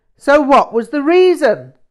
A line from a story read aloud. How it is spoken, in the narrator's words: suddenly shouted